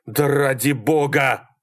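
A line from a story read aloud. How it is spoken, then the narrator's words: Breathless yelling. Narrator (Russian): орал Малькольм, глотая воздух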